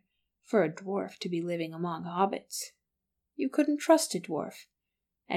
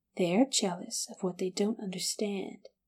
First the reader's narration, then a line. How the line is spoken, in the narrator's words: she said quietly